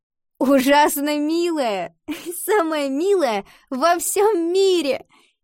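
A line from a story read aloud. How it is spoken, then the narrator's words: Laughing. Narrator (Russian): засмеялась Ива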